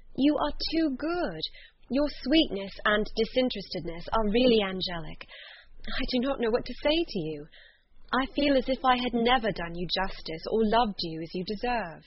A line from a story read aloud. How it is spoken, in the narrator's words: exclaimed Elizabeth